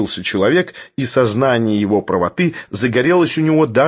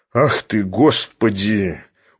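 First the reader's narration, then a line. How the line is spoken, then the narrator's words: Dejected exclamation. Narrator (Russian): уныло воскликнул Филипп Филиппович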